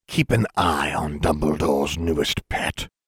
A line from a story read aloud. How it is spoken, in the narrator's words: Voldemort hissed, his anger causing his voice to become more sibilant than was its norm